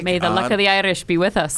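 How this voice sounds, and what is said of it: Slight put-on Irish brogue. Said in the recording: “a little Irish brogue there. Very little.”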